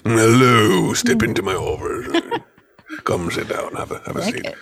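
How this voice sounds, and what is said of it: Stuffy professor character voice. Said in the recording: “the late night radio voice ... like this professor in the ivory tower”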